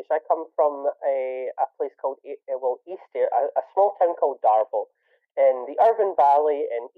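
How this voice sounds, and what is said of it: Scottish accent. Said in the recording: “your actual accent was Scottish ... my actual accent is Scottish”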